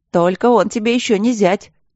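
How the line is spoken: Laughing shout from crowd. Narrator (Russian): смешливо выкрикнули из толпы

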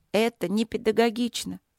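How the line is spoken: Sad. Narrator (Russian): грустно сказала подопечная

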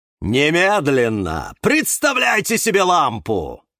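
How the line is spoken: Yelling. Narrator (Russian): завопил Эдуард

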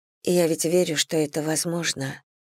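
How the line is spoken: Quiet. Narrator (Russian): тихо молвила

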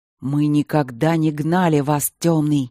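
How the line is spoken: Growled. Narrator (Russian): прорычал Бермонт

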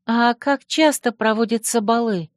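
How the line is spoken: Timid girl asking. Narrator (Russian): робко спросила та девушка

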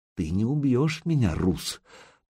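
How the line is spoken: Near whisper. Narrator (Russian): девка говорила почти шепотом

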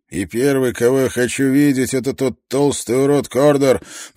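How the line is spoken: Muttering. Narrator (Russian): пробормотал он

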